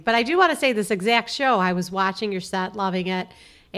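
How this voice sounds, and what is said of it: Chicago accent. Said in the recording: “she's such a Chicago voice ... this dialect”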